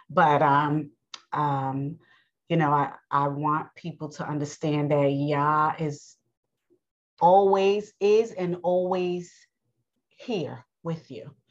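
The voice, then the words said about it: New York accent. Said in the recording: “i know i have an accent people may say i'm from down south or I know I'm, I have a New York accent”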